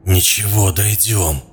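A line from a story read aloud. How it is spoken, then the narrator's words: Hoarse wheezing. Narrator (Russian): хрипел Клоп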